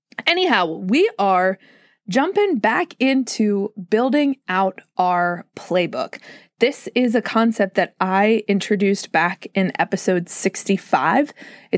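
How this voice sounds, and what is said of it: Slightly off, sore-throated voice. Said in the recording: “My throat is a little bit sore ... my vocal cords are like, sis, what's happening? ... I sound a little weird, weirder than normal”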